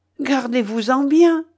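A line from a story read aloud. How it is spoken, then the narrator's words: Exclaimed. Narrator (French): s'écria Ivanhoé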